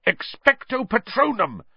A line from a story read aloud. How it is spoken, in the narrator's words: Harry bellowed